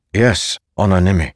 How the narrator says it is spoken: Naturo said

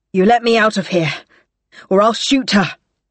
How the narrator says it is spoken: Samelia rasped

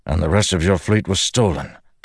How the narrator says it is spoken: Dalinar said with a grunt

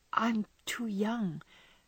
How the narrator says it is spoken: faltered Meg, wondering why she was so fluttered

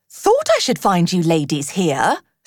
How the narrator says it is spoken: said Otter cheerfully

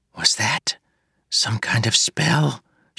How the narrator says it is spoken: she whispered to Moonlight

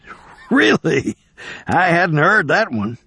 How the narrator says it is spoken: he said, chuckling

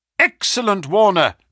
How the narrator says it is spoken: cried Holmes

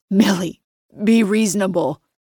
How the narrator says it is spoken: his voice breaks

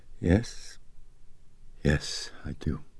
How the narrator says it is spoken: weakly, she said

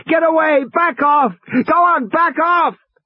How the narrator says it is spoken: Regis was shouting at the top of his lungs

